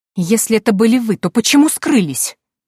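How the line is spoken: Angry exclamation. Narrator (Russian): Гневно воскликнула Патриция

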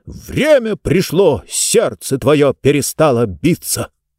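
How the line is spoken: Shout in unison. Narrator (Russian): И они все вместе дружно выкрикнули

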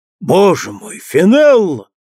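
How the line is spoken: Exclamation. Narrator (Russian): воскликнул

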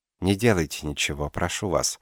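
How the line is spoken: Unexpectedly soft. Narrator (Russian): сказала неожиданно мягко

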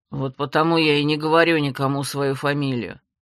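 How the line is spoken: Displeased mutter. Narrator (Russian): недовольно пробурчал мой названный брат

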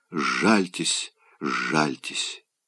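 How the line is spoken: Sweet languid whisper. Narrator (Russian): опустив томно голову на плечо, шептала сладостно

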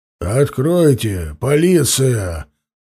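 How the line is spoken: Deep voice behind door. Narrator (Russian): басом сказали за дверью

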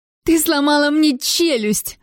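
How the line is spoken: Screamed. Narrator (Russian): закричала она

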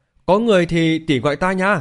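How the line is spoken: Loud call. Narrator (Vietnamese): Thanh Vũ lớn tiếng kêu lên

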